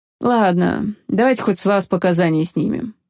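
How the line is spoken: Grim captain. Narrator (Russian): мрачно сказал пришлый капитан

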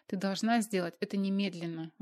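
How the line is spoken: Exclaiming. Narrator (Russian): воскликнула Маргарита

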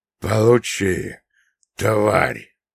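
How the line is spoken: Hoarse rasp while lunging. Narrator (Russian): прохрипел, бросаясь вперед

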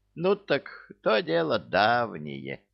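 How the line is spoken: Evasive mutter. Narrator (Russian): уклончиво пробормотала она

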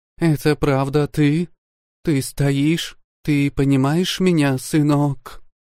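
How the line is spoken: Trembling voice, asking. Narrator (Russian): дрогнувшим голосом спросила она

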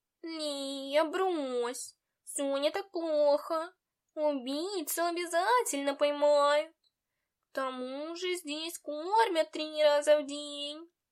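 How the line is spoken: Purring cat. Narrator (Russian): Мурлыкнул кот

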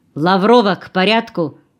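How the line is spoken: Sharp reprimand, camp chief. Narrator (Russian): прикрикнул на нее начальник лагеря

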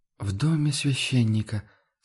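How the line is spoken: Quiet reproachful whisper. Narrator (Russian): с тихим укором прошептала

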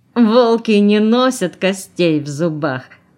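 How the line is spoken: Loud laughter. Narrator (Russian): захохотал он

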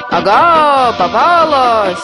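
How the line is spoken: Frightening gleeful shout. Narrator (Russian): страшным голосом закричал злой и от радости

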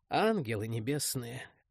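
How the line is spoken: Sorrowful exhale. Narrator (Russian): горестно выдохнул

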